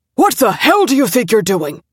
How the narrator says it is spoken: Dad roared at her from the doorway

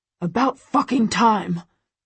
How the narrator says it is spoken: Christian growls at her

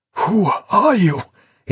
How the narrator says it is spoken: he managed to gasp

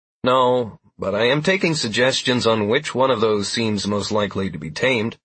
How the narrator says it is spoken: I said with a chuckle to steady my beating heart

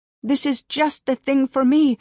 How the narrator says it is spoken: I cried

